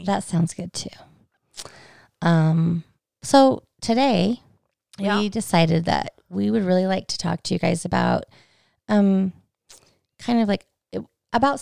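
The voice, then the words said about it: Froggy, hoarse voice. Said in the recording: “My allergies are so bad. ... my voice is all froggy.”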